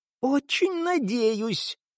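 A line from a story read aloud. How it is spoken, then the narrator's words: Furious hiss. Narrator (Russian): яростно прошипел Дик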